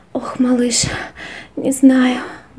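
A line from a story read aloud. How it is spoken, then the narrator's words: Sighed. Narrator (Russian): вздохнула она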